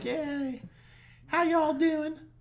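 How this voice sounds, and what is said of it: Put-on southern accent. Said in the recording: “You had this southern accent”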